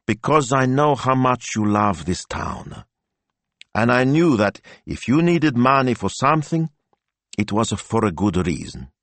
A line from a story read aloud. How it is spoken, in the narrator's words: continued Don Rocco evenly